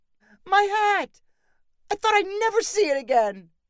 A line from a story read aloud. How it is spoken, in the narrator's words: His father-in-law cried gratefully